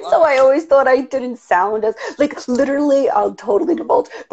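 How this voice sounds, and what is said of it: New York accent. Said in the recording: “people think I have a crazy New York somewhat accent.”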